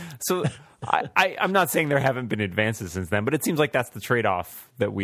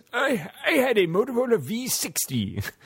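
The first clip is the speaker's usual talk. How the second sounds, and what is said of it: Put-on old man voice. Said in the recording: “do my old man voice”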